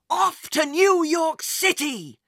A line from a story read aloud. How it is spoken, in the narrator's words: Jack yelled